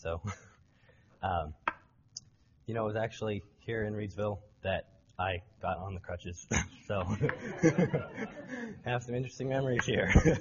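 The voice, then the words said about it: Hoarse voice, recovering from voice loss. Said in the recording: “You'll have to forgive me because I'm getting over losing my voice.”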